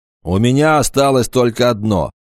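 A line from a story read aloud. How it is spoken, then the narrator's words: Throat cleared, angry. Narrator (Russian): орк откашлялся и сердито добавил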